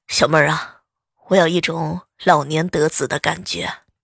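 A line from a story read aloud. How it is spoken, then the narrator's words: Long sigh. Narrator (Chinese): 她长叹一声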